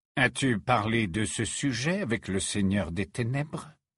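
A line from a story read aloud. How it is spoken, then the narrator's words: Plain question. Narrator (French): demanda Rogue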